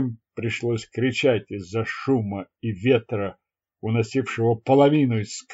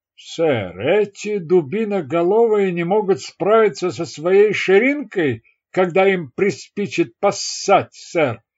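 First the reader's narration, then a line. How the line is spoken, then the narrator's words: Sergeant shouting back. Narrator (Russian): крикнул в ответ первый сержант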